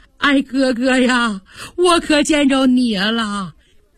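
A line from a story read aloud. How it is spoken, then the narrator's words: Crying. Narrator (Chinese): 他看见表哥贾宝玉哭了出来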